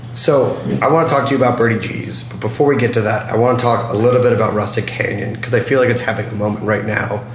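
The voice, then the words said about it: Raspy, cold-affected voice. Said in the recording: “giving me a little bit of a cold and this amazing raspy voice”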